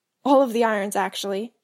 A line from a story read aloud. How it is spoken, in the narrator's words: specifies with a chuckle